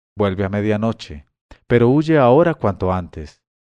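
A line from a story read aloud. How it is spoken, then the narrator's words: Young woman, trembling voice. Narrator (Spanish): la joven me dijo con voz temblorosa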